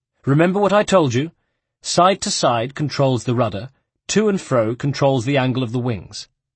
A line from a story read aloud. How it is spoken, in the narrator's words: Leonardo explained earnestly